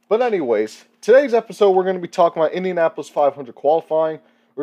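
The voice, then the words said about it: Congested, nasal voice. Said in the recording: “I apologize for my voice. I have a little bit of a congestion.”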